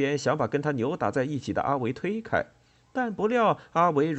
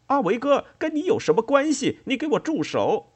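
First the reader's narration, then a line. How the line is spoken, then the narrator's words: Yelling while fighting. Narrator (Chinese): 周平一边还手，一边嚷嚷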